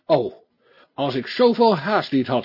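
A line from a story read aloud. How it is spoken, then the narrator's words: Exclaiming. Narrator (Dutch): riep D'Artagnan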